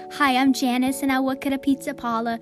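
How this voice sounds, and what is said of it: Odd mix of English and New York accent. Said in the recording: “I don't know what's wrong with my accent. I think I was born in England and New York at the same time.”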